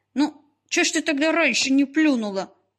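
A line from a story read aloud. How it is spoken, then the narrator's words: Grumbling. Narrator (Russian): пробурчала Люба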